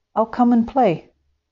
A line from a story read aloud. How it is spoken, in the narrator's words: the little moorpark called out